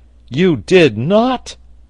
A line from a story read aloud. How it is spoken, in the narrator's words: exclaimed Pencroft in the height of his astonishment, not being able to finish his sentence